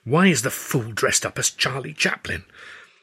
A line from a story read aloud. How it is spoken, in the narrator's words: hissed